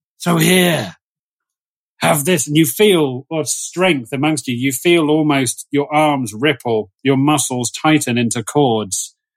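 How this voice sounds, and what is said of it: Menacing evil character voice. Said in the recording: “I'm going to use my evil voice again now.”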